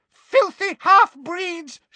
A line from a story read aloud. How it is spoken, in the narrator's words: she screamed